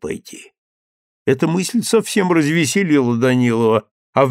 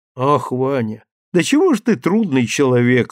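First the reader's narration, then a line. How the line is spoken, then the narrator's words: Sigh. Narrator (Russian): вздохнула Наташа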